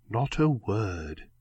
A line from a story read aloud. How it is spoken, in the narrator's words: murmured